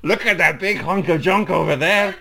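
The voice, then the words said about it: Put-on generic Spanish accent. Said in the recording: “not if you did that accent ... how good are you at generic Spanish”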